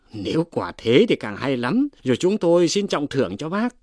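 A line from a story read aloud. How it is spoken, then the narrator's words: Cheerful group speaking. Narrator (Vietnamese): Bọn kia hớn hở nói rằng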